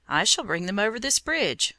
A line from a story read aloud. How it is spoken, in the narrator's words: said Peter